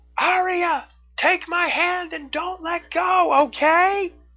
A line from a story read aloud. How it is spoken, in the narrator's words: Neff yelled, trying to be heard over the noise around them